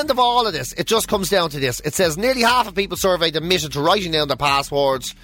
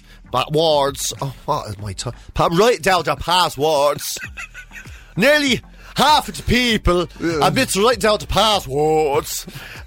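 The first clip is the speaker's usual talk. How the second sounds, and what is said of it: Puts on an odd accent. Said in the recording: “Where does that accent come from?”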